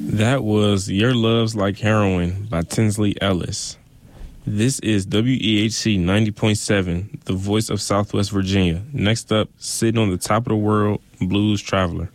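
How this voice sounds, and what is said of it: Great radio announcer voice. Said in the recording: “You've got a great radio voice.”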